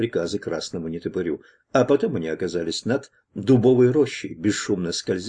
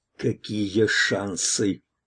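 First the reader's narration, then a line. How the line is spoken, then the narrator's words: Hissing strongman. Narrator (Russian): прошипел силач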